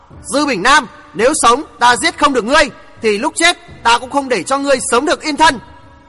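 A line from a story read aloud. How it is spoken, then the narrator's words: Shout. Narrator (Vietnamese): Chàng quát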